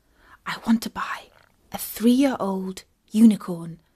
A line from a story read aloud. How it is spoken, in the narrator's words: Katie whispered to it